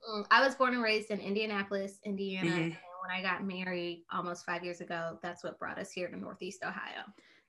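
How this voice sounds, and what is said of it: Southern twang accent. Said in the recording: “you literally sound like you're from the South. Like I hear like a southern twang in your voice”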